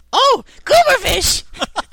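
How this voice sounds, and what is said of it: Impression of Jar Jar Binks. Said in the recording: “your impression of Jar Jar”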